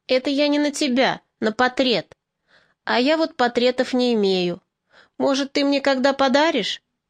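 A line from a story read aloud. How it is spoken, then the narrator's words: Laughing. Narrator (Russian): Варя засмеялась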